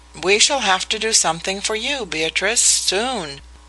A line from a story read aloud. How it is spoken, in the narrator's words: he remarked cheerfully